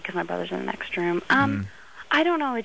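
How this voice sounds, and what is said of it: Speaking very quietly. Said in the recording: “I'm talking really quietly”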